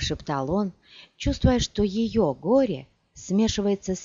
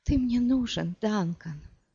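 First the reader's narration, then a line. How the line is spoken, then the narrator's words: Sobbing. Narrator (Russian): всхлипнула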